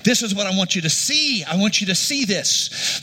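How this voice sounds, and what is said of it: Loud shouting preaching voice. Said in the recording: “I'm shouting you ... so I'm yelling a lot”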